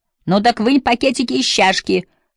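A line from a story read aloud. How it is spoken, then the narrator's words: Shouted reply. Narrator (Russian): крикнула в ответ Эмма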